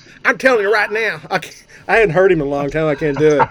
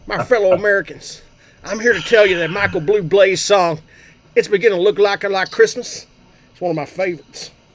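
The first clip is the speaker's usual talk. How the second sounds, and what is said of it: George W. Bush impression. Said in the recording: “do an impersonation ... I nominate ... to be George W.”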